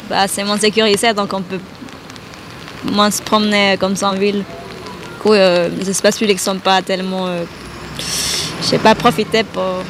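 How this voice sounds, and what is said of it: Slight Central American accent. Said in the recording (French): “Vous avez un petit accent ? ... je viens d'Amérique centrale.”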